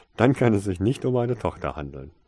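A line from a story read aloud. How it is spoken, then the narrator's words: Laughing. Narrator (German): lachte Mr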